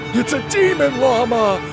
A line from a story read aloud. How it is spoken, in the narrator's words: cried